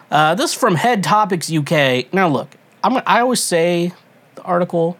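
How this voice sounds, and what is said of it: Usual voice. Nothing is said of it.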